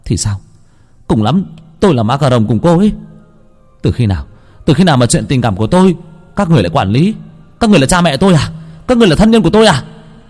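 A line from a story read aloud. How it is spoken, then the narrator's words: Yelling. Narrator (Vietnamese): Anh thanh niên gào lên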